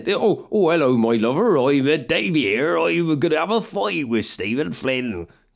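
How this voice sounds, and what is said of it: Made-up accent impersonating Ed Davey. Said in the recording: “no one knows what Ed Davey's voice sounds like. I could just pick an accent.”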